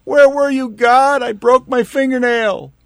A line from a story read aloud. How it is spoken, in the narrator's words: we will scream